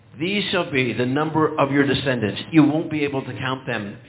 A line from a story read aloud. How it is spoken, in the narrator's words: God whispered again